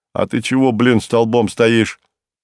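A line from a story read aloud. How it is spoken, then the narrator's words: Barking. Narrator (Russian): рявкнул он на толстяка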